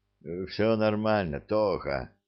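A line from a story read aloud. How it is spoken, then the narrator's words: Weak voice. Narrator (Russian): слабым голосом отвечает мой друг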